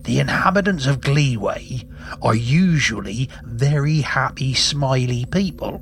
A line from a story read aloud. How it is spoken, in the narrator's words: said Captain Jake